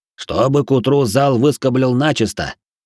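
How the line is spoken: Old man's grumble. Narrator (Russian): старик Фимрам буркнув мне через плечо

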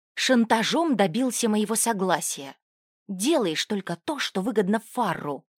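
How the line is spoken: Angry whisper. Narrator (Russian): зло зашептала Риса

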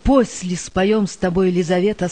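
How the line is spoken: Plain. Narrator (Russian): сказал старшина

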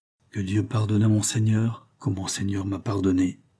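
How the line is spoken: Quietly added. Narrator (French): Puis il ajouta tout bas

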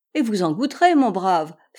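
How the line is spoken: Laughing. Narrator (French): fit en riant

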